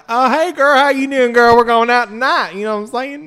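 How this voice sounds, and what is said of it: Put-on folksy drawling accent. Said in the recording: “my accent comes out. I don't have one”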